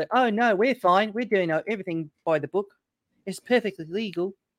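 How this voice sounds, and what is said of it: Put-on Australian accent. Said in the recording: “That's a good accent.”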